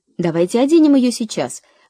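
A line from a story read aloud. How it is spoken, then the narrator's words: Excited impatient exclamation. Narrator (Russian): воскликнула Кэрри, приплясывая от нетерпения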